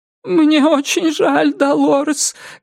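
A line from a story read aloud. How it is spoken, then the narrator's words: Whimpering. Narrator (Russian): говорит, и захныкала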